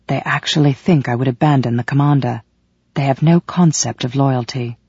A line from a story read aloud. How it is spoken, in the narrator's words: Valak harumphed in my ear and whispered